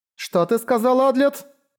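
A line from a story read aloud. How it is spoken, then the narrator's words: Wailing yell. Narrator (Russian): завопила Чама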